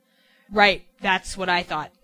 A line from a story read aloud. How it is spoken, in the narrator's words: the beast said